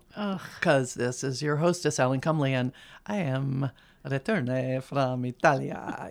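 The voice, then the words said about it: Speaks with a put-on accent. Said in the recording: “You probably hear an accent in my voice, don't you?”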